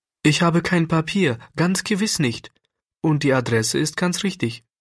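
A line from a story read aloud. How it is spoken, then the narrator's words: Fearful, pleading. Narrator (German): sagte Klärchen so ängstlich und flehend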